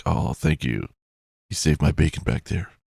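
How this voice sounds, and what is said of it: Quiet Batman-like detective voice. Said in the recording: “That's my detective voice. It sounds like Batman. That I can't do a loud Batman voice.”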